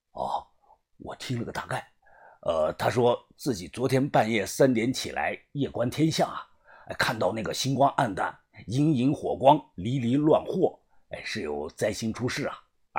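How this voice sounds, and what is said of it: Quiet, hushed voice. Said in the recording (Chinese): “小声”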